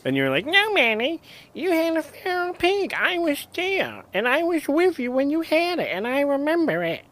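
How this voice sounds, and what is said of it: Imitates another person's voice. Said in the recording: “That's a really good impression of me.”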